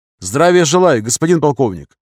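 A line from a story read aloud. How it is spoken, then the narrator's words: Brisk cheerful greeting. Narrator (Russian): бодро приветствовал его Таланов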